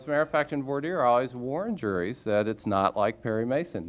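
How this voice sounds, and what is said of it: Southern-sounding American accent. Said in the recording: “just listening to your accent, I have to wonder if you haven't practiced with Ben Matlock a little bit”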